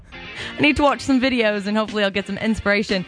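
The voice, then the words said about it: Attempted British accent, unconvincing. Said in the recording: “I'm supposed to do the entire show in a British accent, and I really have no idea what that sounds like.”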